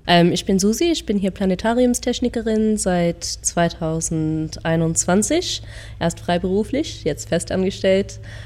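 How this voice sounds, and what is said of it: German with an American accent. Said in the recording (German): “Bin in Amerika aufgewachsen, deswegen habe ich einen Akzent.”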